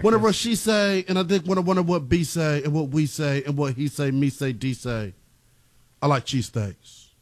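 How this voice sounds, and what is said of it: Put-on UK rapper accent. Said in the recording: “UK Central rapper C. accent. That was my Central C impression.”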